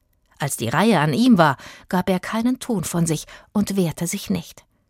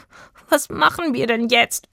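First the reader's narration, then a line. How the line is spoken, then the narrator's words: Whimpering. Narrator (German): wimmerte er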